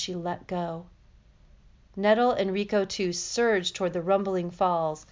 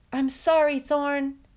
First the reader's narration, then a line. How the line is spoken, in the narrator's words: she cried out